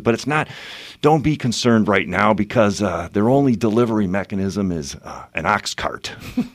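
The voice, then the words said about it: Impression of Johnny. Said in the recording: “That was actually a really good impression, dude. You even had the mannerisms down.”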